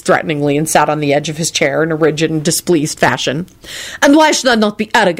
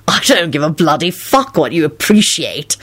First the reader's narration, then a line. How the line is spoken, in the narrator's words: Lupin snarled back